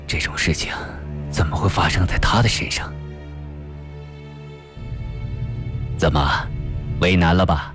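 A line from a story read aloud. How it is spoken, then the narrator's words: Stunned muttering to self. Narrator (Chinese): 金学增是倒吸了一口冷气，愣了半天，这才喃喃自语地说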